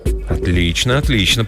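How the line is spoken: Muttering. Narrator (Russian): пробормотал Джим Ланг

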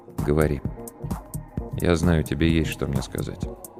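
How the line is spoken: Quiet but weighty. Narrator (Russian): Игорь Олегович тихо, но очень весомо сказал

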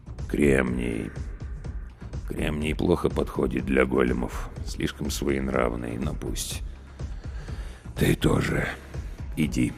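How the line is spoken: Mumbled. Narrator (Russian): пробормотал

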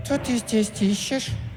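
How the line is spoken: Thin lisping voice. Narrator (Russian): прошепелявила она тоненьким голоском

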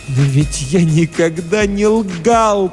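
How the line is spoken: Loud tearful moan. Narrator (Russian): простонал он вдруг громким плачущим голосом

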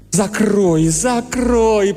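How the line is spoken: Moaning. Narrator (Russian): простонал Бейли

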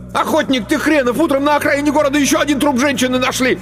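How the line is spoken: Yelling. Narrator (Russian): Мишка и заорал

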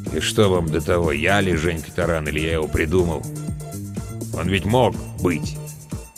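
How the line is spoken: Gloomy. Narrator (Russian): мрачно добавил

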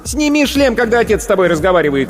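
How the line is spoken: Mother shouting from afar. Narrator (Russian): крикнула из коридора мать девочки

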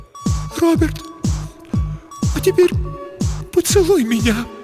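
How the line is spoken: Near tears. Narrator (Russian): произнесла Елена, едва не рыдая

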